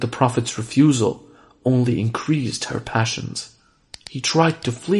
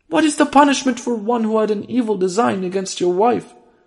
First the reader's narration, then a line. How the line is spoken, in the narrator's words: She cried to her husband